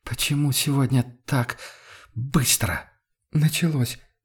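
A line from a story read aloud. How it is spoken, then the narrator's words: Halting, breathless. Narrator (Russian): разомкнула губы Амалия и прерывисто выдохнула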